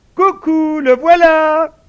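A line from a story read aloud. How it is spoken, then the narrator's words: Theatrical exclamation. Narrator (French): s'écria Tom qui avait soigné son effet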